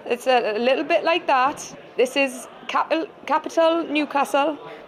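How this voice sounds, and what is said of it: Attempted Newcastle accent. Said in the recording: “Can you do a Newcastle accent? ... That was brilliant.”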